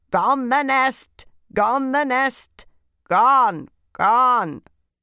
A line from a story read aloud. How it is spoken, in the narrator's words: Crows and jackdaws jeered loudly